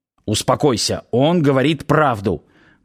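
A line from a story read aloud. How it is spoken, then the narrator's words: Silent telepathic speech. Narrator (Russian): мысленно выдал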